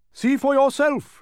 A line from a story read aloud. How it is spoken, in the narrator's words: roared Chroma